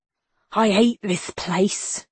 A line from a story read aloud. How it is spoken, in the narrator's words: Gus hissed